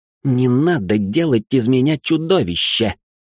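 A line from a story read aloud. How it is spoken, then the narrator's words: Hissed. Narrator (Russian): прошипел Ричард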